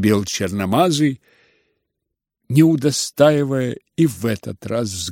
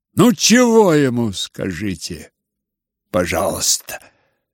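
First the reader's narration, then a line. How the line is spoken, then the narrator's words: Irritated and angry. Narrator (Russian): Раздражительно и злобно Рогожин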